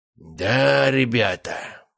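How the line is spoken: Drawling. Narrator (Russian): протянул Анатолий Федорович

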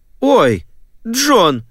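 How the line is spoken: Exclamation. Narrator (Russian): воскликнула она

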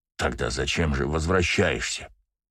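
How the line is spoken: Hoarse, agitated question. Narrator (Russian): спросил он хриплым от волнения голосом

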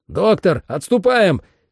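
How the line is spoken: Shout. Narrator (Russian): крикнул я

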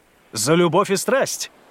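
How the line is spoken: Exuberant exclamation. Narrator (Russian): воскликнул Доменико

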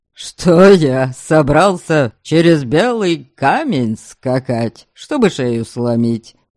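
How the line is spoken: Chuckling. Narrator (Russian): хохотнул Вольга

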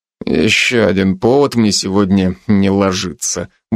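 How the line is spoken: Muttered. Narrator (Russian): буркнул я

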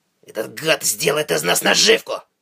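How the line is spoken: Growled. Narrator (Russian): прорычал Уорд

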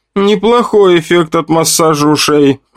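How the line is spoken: Laughing loudly. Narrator (Russian): расхохоталась Женя

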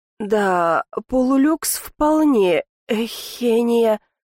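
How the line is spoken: Moan. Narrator (Russian): простонал

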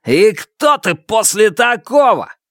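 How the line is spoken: Yelling. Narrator (Russian): заорал Черныш

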